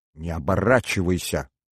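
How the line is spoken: Hissed. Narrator (Russian): зашипела она

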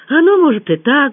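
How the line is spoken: Sighing. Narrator (Russian): вздохнул Сережа

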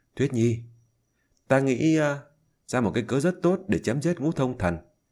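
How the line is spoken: Whisper. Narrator (Vietnamese): thì thầm

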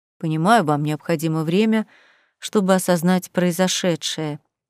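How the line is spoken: Quiet angel. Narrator (Russian): вновь тихо заговорил ангел

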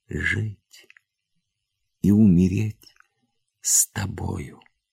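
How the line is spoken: Quiet. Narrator (Russian): тихо произнесла Ольга

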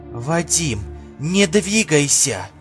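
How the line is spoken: Mother whispering from next room. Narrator (Russian): прошептала мать из соседней комнаты

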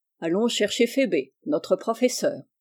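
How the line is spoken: Plain. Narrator (French): dit l'oncle Alec

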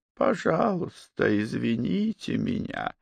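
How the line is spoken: Creaky voice. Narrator (Russian): проскрипел

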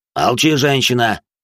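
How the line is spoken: Growling. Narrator (Russian): рыкнул хозяин города

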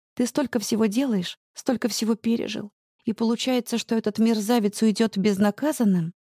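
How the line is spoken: Quiet sighing. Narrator (Russian): тихо добавляю, вздыхая

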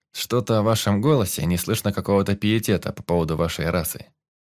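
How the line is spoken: Plain. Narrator (Russian): сказал Медив

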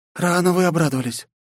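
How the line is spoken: Breathed out. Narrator (Russian): выдохнула Грейс

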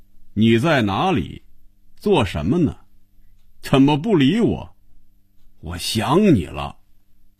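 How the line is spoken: Loud reading aloud. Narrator (Chinese): 开始大声念着

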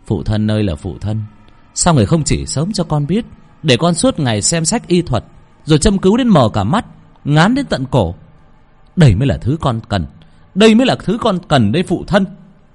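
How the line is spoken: Smug, loud laughter. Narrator (Vietnamese): Đắc ý mà cười to

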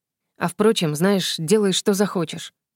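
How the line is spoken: Muttered. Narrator (Russian): пробормотал

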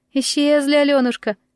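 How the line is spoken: Sighing firebird. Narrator (Russian): вздохнула жар-птица

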